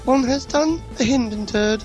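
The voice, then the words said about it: Imitates another person's voice. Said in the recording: “That's how the Queen would say it. ... my perfect Queen impression. ... It's good.”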